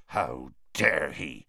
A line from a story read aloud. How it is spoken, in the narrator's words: Hagrid growled